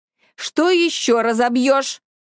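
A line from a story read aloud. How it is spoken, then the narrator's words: Mother's steely question. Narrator (Russian): металлическим голосом спросила мама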